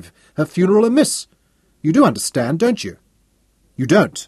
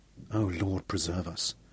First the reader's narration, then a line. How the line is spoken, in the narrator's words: Dickie breathed, his guilty conscience delivering a heavy jolt into his belly